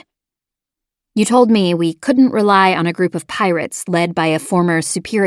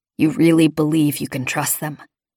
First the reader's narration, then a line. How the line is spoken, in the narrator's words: Jorgen asked softly